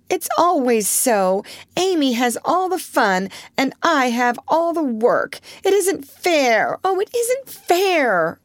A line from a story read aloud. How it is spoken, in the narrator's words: cried Jo passionately